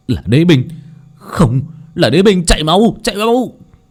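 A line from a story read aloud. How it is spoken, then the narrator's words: Panicked screaming. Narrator (Vietnamese): Hai pháp sư trông thấy thanh gươm thì hét lên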